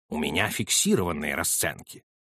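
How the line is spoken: Cold. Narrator (Russian): холодно ответил Холмс

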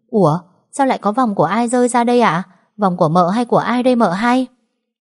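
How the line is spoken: Loud, near-shouting. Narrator (Vietnamese): Tiếng nói của con Đào như hét lên, lớn

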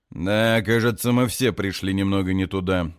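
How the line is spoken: Sarcastic. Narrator (Russian): язвительно замечает он

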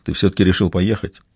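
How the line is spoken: Said quietly. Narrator (Russian): он тихо произнес

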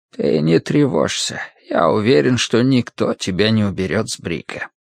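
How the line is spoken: Sudden low-voiced addition. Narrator (Russian): доктор вдруг добавил вполголоса

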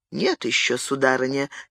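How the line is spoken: Quiet reply. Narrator (Russian): тихо ответил Андре

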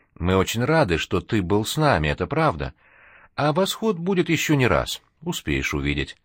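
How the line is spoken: Gentle, almost no accent. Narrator (Russian): Натали ласково, практически без акцента, сказала

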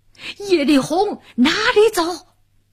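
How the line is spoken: Thunderous shout. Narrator (Chinese): 一个红脸大汉，响起炸雷般一声呐喊

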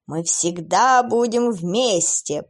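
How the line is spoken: Creature's roar. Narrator (Russian): проревело существо

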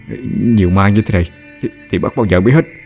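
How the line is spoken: Terrified stammer. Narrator (Vietnamese): Lâm Trọc bây giờ sợ đến liếu cả lưỡi, lắp bắp nói

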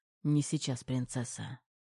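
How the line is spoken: Hoarse whisper in ear. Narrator (Russian): Сипло прошептал Терех прямо на ухо

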